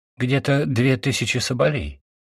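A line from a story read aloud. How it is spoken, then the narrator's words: Plain. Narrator (Russian): сказала Натаха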